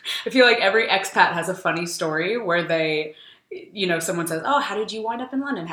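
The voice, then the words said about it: California American accent. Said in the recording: “this California accent”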